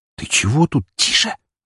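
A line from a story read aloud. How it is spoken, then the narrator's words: Hiss. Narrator (Russian): зашипела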